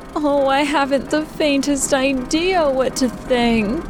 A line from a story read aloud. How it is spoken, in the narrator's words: Ladybug moaned